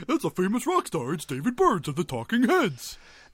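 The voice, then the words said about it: Cartoon bear voice imitation. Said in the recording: “That's almost my Yogi impression.”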